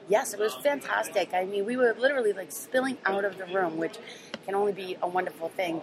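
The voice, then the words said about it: Massachusetts accent. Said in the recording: “I love to hear the Massachusetts accent in the morning.”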